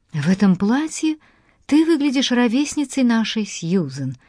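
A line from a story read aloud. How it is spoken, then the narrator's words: Exclamation. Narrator (Russian): воскликнула Дафна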